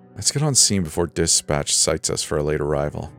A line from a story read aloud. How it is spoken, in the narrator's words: Steve muttered